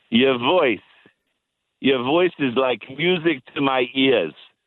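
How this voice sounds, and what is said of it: Imitates another person's voice. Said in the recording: “I'm going to do my Mike impersonation”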